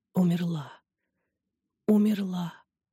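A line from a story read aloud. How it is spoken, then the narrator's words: Moaning reply. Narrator (Russian): Зораида сумела лишь простонать в ответ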